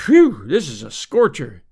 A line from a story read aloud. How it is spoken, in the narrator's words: he exclaimed